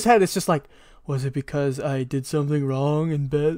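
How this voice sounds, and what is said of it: Imitates another person's voice. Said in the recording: “good ship impression”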